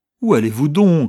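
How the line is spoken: Exclaimed. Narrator (French): s'écria

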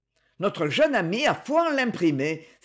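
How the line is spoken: Exclaimed. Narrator (French): s'écria Amédée de la Lyre

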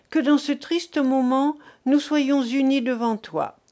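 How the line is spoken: Cried out. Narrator (French): s'écria Thérèse

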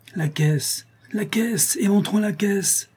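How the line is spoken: Savagely impatient cry. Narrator (French): s'écria Calebasse avec une sauvage impatience

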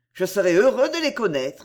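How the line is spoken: Cold. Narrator (French): dit Olivier froidement

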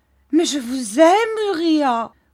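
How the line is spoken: Exclaimed. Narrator (French): s'écria Mistress Heep

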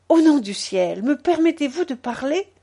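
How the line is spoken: Impassioned exclamation. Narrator (French): s'écria-t-il dans un transport qui me sembla inexplicable

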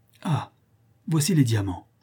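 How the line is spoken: Exclaimed. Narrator (French): s'écria Sir Henry

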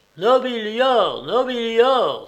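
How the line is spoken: Crowd shouting. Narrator (French): s'écria la populace

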